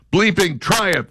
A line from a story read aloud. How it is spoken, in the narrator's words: the student yells back